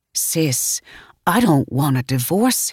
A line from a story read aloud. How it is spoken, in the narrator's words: he whispered